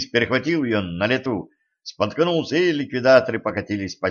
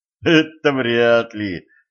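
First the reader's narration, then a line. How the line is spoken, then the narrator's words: Laughing. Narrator (Russian): засмеялся Денис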